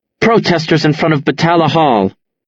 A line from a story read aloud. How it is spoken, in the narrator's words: she snaps